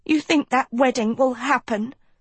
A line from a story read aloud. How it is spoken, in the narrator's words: Sophie spat